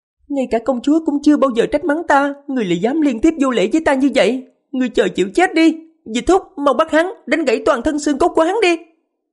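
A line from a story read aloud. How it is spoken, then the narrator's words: Shrill offended cry. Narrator (Vietnamese): Á thị nữ của Phong Hoàng dường như rất phản cảm với người xưng hô nàng ta là hạ nhân, kêu lên giọng the thé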